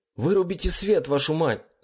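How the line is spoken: Yelling. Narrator (Russian): заорал я

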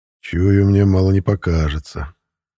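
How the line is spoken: Sighing. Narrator (Russian): вздохнул я

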